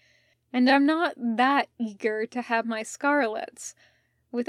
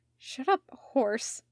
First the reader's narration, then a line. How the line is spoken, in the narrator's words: while blushing furiously